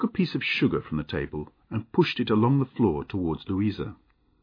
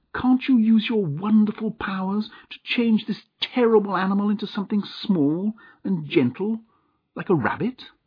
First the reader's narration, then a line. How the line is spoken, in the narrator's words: cried his aunt